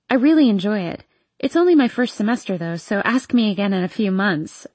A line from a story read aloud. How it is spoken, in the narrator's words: I joke